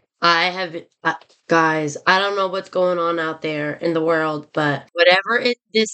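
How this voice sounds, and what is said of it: Sick-sounding voice. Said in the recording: “If you can't tell by my voice, I have been sick.”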